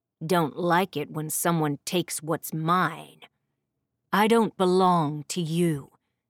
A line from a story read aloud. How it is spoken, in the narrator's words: the fairy snarled